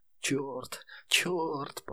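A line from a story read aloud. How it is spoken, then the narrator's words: Whispered repetition. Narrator (Russian): повторял Пекка шепотом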